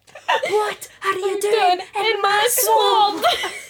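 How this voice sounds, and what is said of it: Shrek character impression. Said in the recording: “my Shrek impression ... It's pretty solid.”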